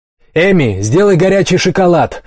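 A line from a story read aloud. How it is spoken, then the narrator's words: Shout. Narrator (Russian): закричал Райан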